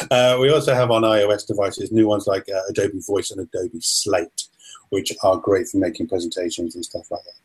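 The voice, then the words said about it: Strong English accent. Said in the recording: “I've got such a strong accent ... I talk properly, you see. ... I love English accents.”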